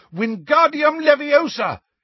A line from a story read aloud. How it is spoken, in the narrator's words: he shouted